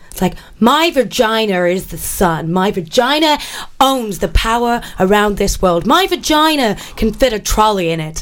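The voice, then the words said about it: Put-on American accent. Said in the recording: “I'm going to do it in an American accent.”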